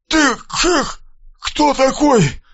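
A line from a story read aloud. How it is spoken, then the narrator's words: Strained, forced words. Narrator (Russian): выдавил из себя Мальцев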